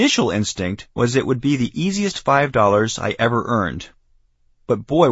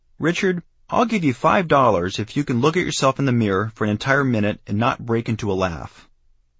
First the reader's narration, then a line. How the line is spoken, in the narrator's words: She said in a loving voice